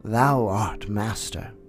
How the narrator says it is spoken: said Bagheera in an undertone

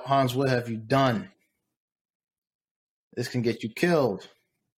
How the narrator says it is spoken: They shout

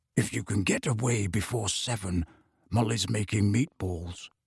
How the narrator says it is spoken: He dropped his voice and said

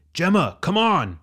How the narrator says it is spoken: Richard yelled from across the wall

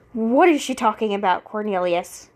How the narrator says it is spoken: she growled

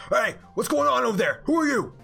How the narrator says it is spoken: yells out

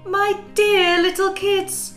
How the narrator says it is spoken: cried the mother

